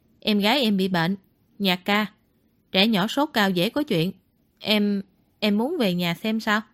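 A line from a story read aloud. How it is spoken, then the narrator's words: Lowered voice. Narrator (Vietnamese): Ngụy Khiêm hạ giọng nói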